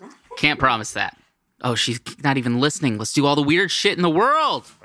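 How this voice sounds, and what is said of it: Usual voice. Nothing is said of it.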